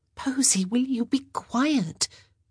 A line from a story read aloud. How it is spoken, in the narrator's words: Sophie whispered